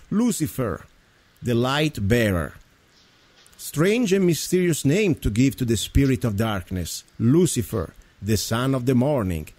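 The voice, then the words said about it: Speaks with a noticeable accent. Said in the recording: “I'm reading with my accent, of course, so forgive me.”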